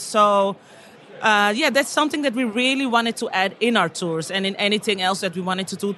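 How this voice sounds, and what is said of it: Dutch accent. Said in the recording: “I feel like I detected a Dutch accent there.”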